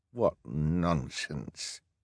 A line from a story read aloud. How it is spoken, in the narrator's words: Hal muttered